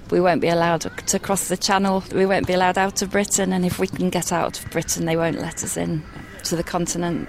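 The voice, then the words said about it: British accent. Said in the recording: “as you can tell, maybe also from the accents, of course we are talking with some comrades from Great Britain”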